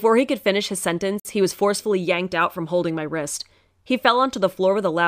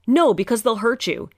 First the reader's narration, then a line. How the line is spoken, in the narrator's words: he shouted